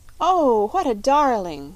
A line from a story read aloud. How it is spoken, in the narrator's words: cried Polly